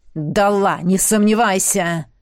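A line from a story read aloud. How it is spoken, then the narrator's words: Growled. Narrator (Russian): Рыкнул Риан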